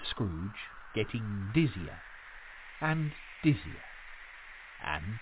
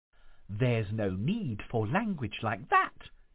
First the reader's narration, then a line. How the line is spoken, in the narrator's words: exclaimed the ghost